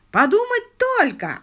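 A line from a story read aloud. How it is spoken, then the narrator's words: Yelling. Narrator (Russian): орал он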